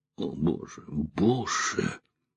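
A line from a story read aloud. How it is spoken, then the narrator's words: Shocked exhale. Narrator (Russian): выдохнула Эллен, потрясенная идиотизмом, бессмысленностью всего того, что произошло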